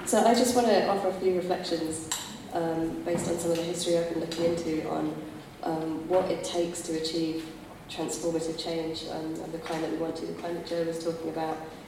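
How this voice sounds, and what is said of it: Congested, hoarse, fading voice. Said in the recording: “full of cold and slightly losing my voice”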